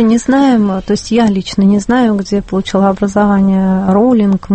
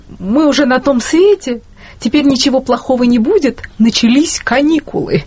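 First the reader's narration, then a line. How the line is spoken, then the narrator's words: Joyful. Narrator (Russian): радостно и сказал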